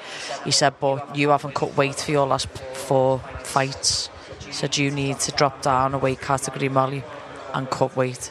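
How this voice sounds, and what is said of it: Cockney accent. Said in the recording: “Perfect Cockney accent. you fit right into South yeah. London.”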